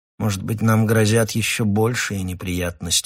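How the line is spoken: Gloomy remark. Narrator (Russian): заметил он мрачно

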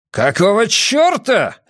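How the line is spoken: Barking roar. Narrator (Russian): рявкнул Эмон

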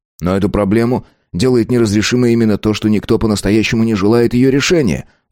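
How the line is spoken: Exclamation. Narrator (Russian): воскликнул археолог

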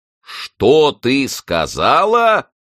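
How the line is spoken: Roared. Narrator (Russian): проревел главный исповедник

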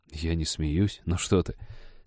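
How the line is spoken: Garbled mumble. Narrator (Russian): скомканно пробормотал Женька

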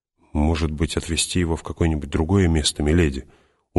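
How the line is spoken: Glum question. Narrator (Russian): уныло спросил он

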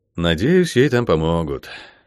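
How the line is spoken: Sighing, father. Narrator (Russian): вздохнул папа

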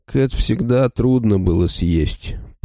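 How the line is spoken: Smug mutter. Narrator (Russian): пробормотал он, радуясь собственному остроумию

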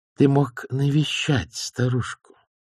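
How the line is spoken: Quiet. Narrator (Russian): тихо произнесла она

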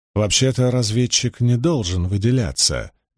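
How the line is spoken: Soft interjection. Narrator (Russian): мягко вставила Илэйн

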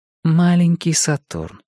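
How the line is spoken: Soft. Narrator (Russian): мягко повторила Марго

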